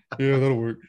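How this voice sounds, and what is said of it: Imitates another person's voice. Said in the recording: “You do a great impression. It actually sounds like him a little bit.”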